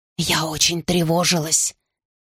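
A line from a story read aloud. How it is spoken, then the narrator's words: Whisper. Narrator (Russian): прошептала Беннера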